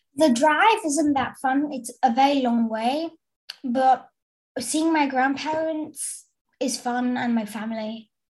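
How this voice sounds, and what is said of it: English accent, not Belgian. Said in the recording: “you don't sound like you're from Brussels ... You don't have a Brussels accent ... where did you get that accent? ... I got it from my parents and my grandparents”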